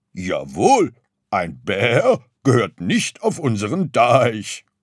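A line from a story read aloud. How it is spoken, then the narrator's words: Sullen sheep grumbling. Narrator (German): brummte Schaf missmutig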